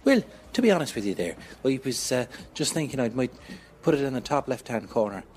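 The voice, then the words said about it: Put-on silly Irish accent. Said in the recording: “in that silly voice, in that accent ... channel out the Irish in me”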